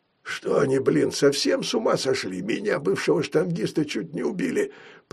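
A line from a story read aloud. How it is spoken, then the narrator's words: Strained, pained wheeze. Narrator (Russian): прохрипел Толстый, держась за поясницу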